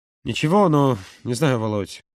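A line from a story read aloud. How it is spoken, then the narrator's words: Choked mumble. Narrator (Russian): сдавленно пробормотал Юра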